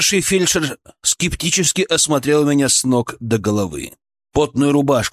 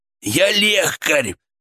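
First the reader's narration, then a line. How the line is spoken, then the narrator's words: Hoarse wheeze. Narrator (Russian): просипел я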